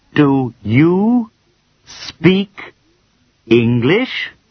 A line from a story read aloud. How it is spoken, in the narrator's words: said, very slowly